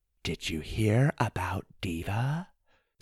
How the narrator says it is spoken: said one of the women in a hushed tone

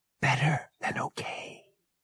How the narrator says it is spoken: she whispered

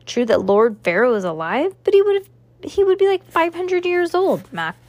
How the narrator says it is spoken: Max scoffed

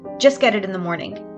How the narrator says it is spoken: answered sharply

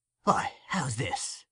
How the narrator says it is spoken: muttered the Jew

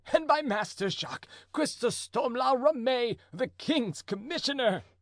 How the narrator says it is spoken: cried the prisoner, laughing violently

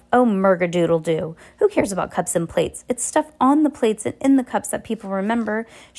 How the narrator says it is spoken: Heidi grumbled to herself

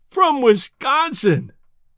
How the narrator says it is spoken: groaned Judkins

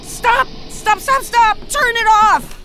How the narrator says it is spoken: I finally yelled

